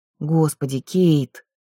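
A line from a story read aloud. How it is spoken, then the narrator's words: Moaned. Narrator (Russian): простонала Нэт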